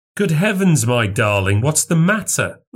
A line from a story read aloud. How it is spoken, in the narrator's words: I cried